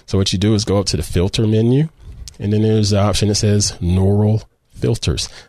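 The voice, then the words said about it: Southern US drawl. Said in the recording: “my southern drawl”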